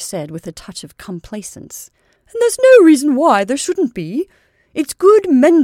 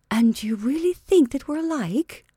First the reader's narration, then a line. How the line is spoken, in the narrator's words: Rachel asked feebly